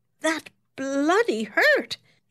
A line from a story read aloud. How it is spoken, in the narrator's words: exclaimed indignantly